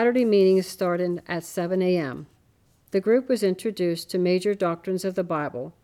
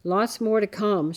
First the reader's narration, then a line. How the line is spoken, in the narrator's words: she murmured in a monotone, barely moving her lips